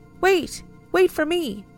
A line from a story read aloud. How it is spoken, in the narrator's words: in a small girl's voice, like a younger sibling desperately trying to keep up with their older one